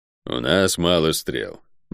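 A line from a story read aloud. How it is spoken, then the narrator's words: Grim. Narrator (Russian): мрачно произнес Водор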